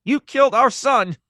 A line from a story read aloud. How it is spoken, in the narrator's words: a woman screamed, her face red and teary, features distorted by rage